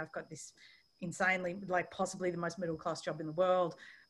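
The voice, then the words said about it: Strong working-class English accent. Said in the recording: “I have a particularly banging working class accent ... I sound like a slightly aggressive waitress”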